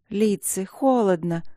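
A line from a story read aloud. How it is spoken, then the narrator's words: Sleepy. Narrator (Russian): сонно проговорила леди Шарлотта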